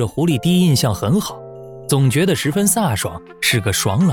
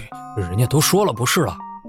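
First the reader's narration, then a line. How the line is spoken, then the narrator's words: Mumbling. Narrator (Chinese): 窦春亭喃喃道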